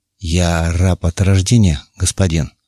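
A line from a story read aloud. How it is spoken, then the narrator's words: Plain. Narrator (Russian): ответил раб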